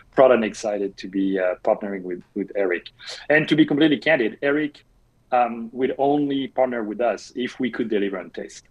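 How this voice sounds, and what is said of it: French accent. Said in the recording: “I'm French, in case you thought my accent was from Chicago.”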